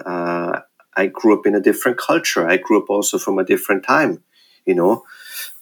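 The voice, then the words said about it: Austrian-accented English. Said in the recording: “as you can hear from my accent... I'm from Austria”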